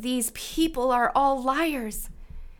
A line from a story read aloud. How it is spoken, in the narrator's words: In my anxiety, I cried out